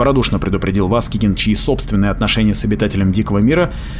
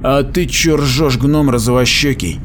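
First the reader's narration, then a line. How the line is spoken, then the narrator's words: Growling. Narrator (Russian): прорычал Мегин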